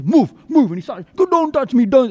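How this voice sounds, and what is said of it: Put-on Nigerian accent. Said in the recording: “He put on a Nigerian accent to say that?”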